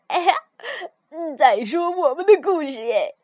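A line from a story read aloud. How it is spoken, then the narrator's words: Laughing heartily. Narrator (Chinese): 他们会哈哈大笑，说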